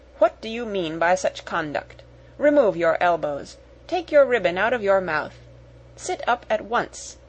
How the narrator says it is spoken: she exclaimed severely

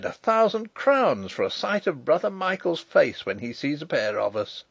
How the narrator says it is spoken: the merry laugh rang out again

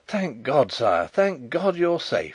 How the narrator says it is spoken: he cried

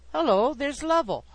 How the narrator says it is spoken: exclaimed Grandpa

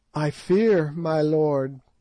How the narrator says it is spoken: the girl answered timidly

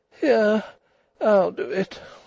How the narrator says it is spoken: she said wearily

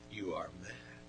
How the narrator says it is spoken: was already shaking with rage as he said in a low voice

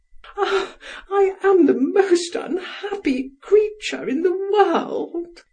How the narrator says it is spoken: sobbed

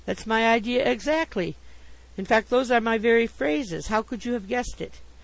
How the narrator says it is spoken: I exclaimed

